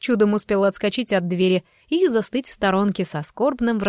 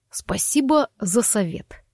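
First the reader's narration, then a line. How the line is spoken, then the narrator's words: Through gritted teeth. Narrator (Russian): процедил Форест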